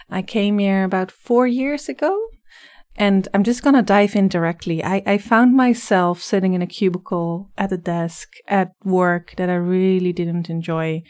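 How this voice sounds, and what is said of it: Slight Dutch accent. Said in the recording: “I'm originally from the Netherlands, so you'll probably hear a slight accent in my voice”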